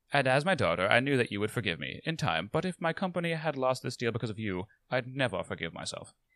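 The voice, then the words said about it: Put-on British accent. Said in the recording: “With clear accent differences between mother and daughter. ... all the best British mothers have American daughters.”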